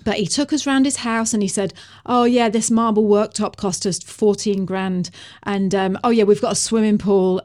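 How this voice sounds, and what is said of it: Northern English accent. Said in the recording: “he talked with a northern accent like that ... That's a beautiful accent, by the way. That's my accent.”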